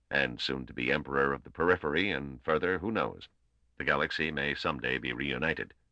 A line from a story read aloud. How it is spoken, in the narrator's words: Venus added blandly at the pause